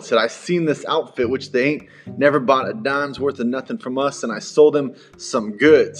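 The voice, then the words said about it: Put-on accent. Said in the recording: “I'm not sure why I'm adding an accent to this”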